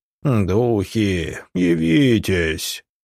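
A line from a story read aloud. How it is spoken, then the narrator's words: Sepulchral voice. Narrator (Russian): гробовым голосом произнес медиум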